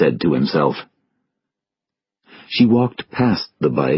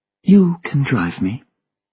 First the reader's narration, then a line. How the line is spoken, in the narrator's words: she said calmly